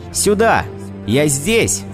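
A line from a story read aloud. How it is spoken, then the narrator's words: Joyful shouting. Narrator (Russian): Сергей в порыве радости кричал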